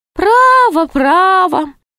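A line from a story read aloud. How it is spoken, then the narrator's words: Sigh. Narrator (Russian): вздохнул Шут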